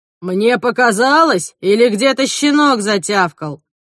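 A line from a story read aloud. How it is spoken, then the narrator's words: Booming right by ear. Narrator (Russian): прогремело над ухом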